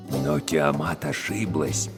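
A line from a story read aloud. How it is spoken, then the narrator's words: Lowered voice. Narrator (Russian): перевел шепот Гюльшамаш Абдулла, сам непроизвольно понижая голос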